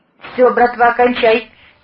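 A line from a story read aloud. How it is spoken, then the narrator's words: Driver shouting. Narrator (Russian): крикнул водитель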